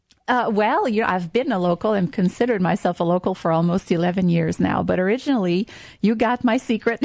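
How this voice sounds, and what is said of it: Non-native, French Canadian accent. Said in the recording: “you don't sound like a local ... I'm French Canadian”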